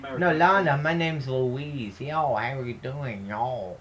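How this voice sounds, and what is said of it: Put-on Mexican accent. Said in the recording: “No, that's not. That's Mexican.”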